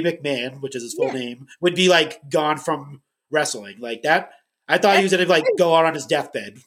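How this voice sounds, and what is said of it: Boston accent. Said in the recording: “I'm in Massachusetts ... I recognize that accent.”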